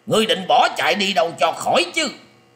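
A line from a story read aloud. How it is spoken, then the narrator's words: Furious loud bellow. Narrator (Vietnamese): lão ta hết sức tức giận quát to lên rằng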